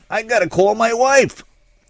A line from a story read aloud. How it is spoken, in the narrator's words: Dortmunder, who in the sudden silence once again shouted